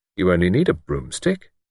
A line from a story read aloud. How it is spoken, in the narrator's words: he said kindly